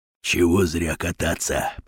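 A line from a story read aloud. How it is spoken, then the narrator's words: Whisper. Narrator (Russian): прошептал Батон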